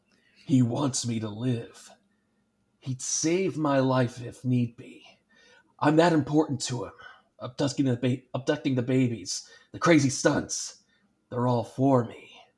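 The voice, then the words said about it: Gravelly Batman character voice. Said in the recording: “do my best Batman voice.”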